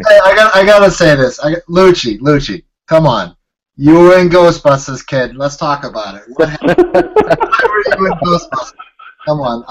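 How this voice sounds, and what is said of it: Put-on Boston accent. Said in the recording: “I said that with a Boston accent”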